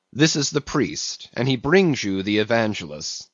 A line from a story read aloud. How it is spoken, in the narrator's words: said Don Sebastian gravely